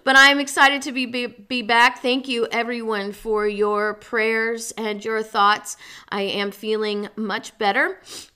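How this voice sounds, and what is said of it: Voice still sounds unwell. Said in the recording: “You can tell by my voice that I'm not totally recovered”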